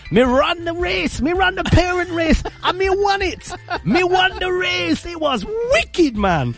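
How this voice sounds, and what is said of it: Put-on strong Jamaican accent. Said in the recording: “he had a very strong Jamaican accent ... I'll try and do an impression of him”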